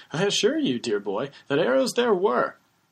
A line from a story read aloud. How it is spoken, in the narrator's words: The bearded man exclaims